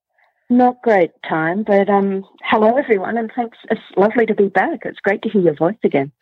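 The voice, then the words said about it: Mild Australian accent. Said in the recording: “it's always good to hear your accent. It's lovely... It's not a very big Australian accent. It's a little bit”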